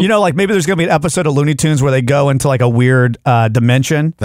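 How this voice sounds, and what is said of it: Usual voice. Nothing is said of it.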